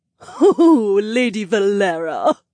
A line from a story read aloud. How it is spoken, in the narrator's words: one of the servants giggled